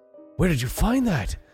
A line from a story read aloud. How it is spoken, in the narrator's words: the woman gasped